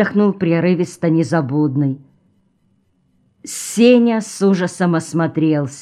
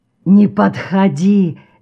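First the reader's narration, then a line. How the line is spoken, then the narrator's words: Hoarse wheezing. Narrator (Russian): сипел Артем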